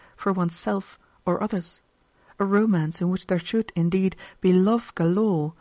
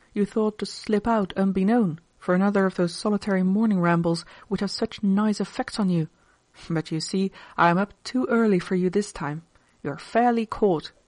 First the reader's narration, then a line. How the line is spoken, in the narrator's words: she exclaimed, with a charmingly arch expression